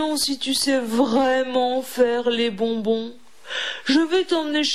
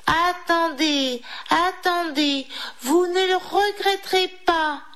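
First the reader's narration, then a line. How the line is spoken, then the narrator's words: Exclaiming. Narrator (French): s'écria Didi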